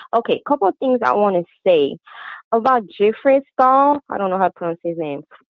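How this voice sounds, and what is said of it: Speaker's own accent. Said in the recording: “Forgive my accent.”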